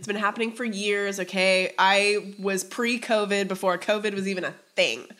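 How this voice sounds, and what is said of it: Congested, stuffy voice. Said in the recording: “I have such bad allergies, as you can probably hear in my voice right now”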